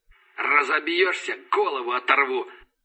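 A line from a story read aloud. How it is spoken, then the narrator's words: Hoarse voice over radio. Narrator (Russian): прохрипело радио голосом Рашина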